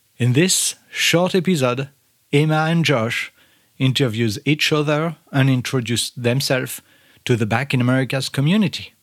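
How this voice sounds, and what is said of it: Non-native English accent. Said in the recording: “they get to make fun at my accent. It seems like, for the life of me, I can't pronounce potatoes correctly.”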